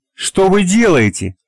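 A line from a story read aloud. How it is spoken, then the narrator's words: Screaming. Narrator (Russian): завопила Надя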